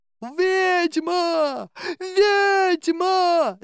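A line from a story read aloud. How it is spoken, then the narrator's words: Yelling. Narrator (Russian): завопил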